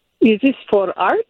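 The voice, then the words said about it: Bad fake French accent. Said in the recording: “my bad French accent.”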